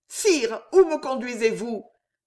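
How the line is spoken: Panicked struggling cry. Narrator (French): s'écria Jeanne en se débattant, affolée

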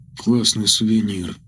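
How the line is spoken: Quiet. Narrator (Russian): тихо произнес парень

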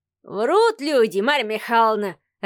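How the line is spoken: Old man laughing loudly. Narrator (Russian): расхохотался старичок

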